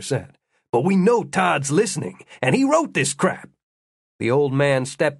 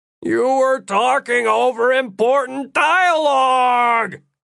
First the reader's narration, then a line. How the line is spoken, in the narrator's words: Todd whined